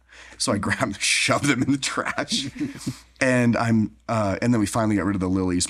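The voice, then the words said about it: Hoarse, nearly lost voice. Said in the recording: “my voice is gone”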